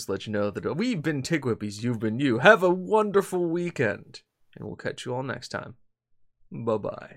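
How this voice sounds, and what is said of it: Announcer voice. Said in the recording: “I've gone into announcer voice”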